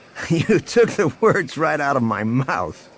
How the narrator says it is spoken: Han laughed

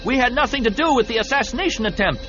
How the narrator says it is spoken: someone in one of the other boats shouted

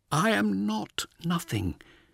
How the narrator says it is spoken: whispered to the darkness

